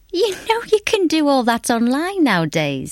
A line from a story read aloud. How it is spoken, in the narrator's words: he chuckled